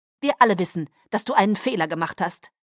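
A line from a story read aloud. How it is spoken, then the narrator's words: Curt. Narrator (German): sagte schroff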